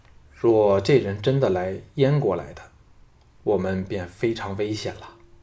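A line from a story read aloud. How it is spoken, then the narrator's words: Calm, indifferent. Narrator (Chinese): 项少龙淡淡道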